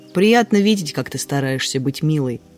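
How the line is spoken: Smirking snort. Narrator (Russian): хмыкнул Унельм

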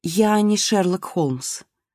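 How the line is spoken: Plain. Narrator (Russian): сказала Марго

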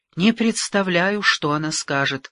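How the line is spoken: Sighing. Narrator (Russian): вздохнула Дуэнья

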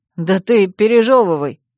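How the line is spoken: Snorting. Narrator (Russian): хмыкнул Ньяль

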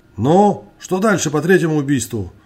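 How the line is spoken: Displeased exclamation. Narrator (Russian): недовольно вскрикнул он

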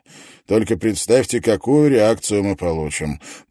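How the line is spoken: Grumbling. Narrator (Russian): проворчал он

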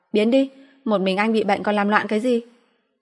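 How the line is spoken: Irritated pregnant woman shouting. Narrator (Vietnamese): Phụ nữ có thai hoàn toàn bực mình, hét lên với anh

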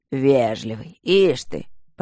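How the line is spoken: Displeased rumbling voice from behind. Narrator (Russian): прогудел недовольный голос из-за его спины

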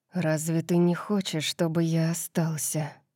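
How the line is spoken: Murmur. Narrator (Russian): пробормотал он

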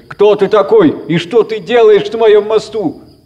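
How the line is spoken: Shouted. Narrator (Russian): закричал он

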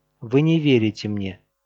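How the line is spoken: Calm. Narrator (Russian): спокойно сказала она

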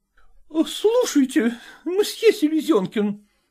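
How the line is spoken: Exclaiming. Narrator (Russian): воскликнула она

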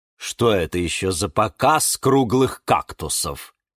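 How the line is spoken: Scoffing snort. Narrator (Russian): хмыкнул нарцисс Борис

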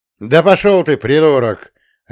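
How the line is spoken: Bark. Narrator (Russian): Рявкнул

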